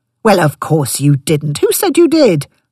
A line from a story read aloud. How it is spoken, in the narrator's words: he blustered indignantly